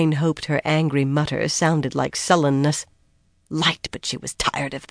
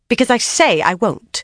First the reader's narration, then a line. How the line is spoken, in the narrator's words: Lilaine snapped